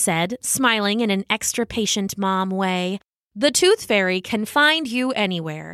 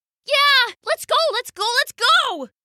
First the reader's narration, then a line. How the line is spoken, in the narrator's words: cried Mason, excitedly